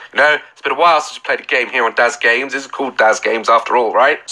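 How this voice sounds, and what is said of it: Sick-sounding voice. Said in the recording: “As you can see and hear in my voice, I'm just recovering from flu”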